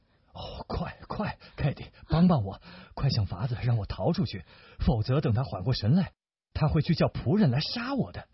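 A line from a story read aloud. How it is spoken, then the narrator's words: Low urgent voice. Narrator (Chinese): 达达尼昂就低声地对凯蒂说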